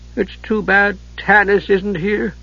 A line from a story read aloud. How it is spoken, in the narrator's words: Tass said wistfully